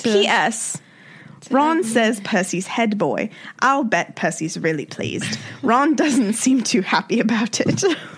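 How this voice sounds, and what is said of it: Put-on British accent. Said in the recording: “I used to always think that I could do like a good British accent ... All I'm gonna say about your accent is your wife left pretty hard.”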